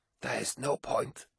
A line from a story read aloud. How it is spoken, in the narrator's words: gasped Ingmei Singh